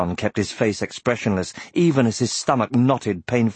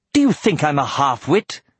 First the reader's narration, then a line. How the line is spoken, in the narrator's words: he demanded harshly